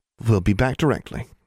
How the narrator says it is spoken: Forbearance said soothingly

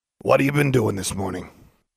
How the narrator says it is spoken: he asked gruffly

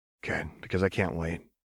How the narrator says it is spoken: Kellen replied softly

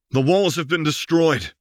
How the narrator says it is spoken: called out into the mountains

